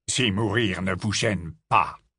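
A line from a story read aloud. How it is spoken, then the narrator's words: Rough, harsh tone. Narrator (French): lança Rogue d'un ton rude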